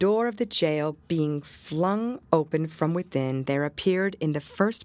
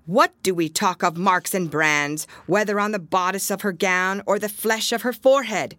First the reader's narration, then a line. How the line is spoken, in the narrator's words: cried another female, the ugliest as well as the most pitiless